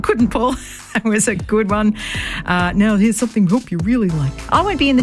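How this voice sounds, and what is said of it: Usual voice. Nothing is said of it.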